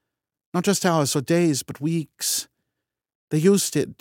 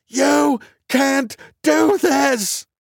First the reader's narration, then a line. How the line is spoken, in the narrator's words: craned my neck back toward the door and screamed